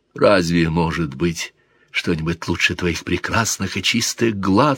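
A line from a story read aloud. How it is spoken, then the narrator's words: Whispered. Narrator (Russian): шептал мужчина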